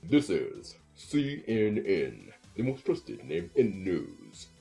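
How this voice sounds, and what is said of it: James Earl Jones impression. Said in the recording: “my impression of James Earl Jones in CNN”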